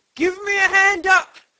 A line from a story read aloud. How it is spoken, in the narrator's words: he cried